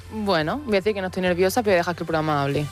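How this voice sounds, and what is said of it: Almería Spanish accent. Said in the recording (Spanish): “te ha salido tu acento de Almería. Qué bonito.”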